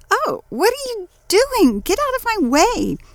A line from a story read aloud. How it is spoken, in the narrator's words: She cried